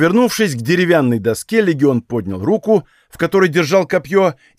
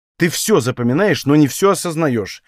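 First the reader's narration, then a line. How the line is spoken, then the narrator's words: Irritated. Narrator (Russian): произнес я раздраженно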